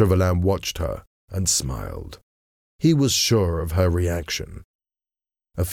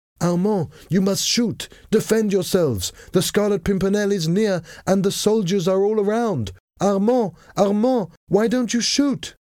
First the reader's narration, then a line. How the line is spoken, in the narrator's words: still shouting